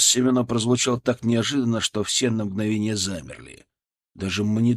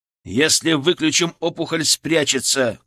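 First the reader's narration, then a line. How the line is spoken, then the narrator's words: Shouted. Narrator (Russian): крикнул я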